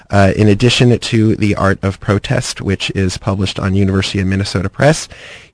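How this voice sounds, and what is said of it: Hoarse, strained voice. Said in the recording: “Can you hear me okay with my laryngitis?”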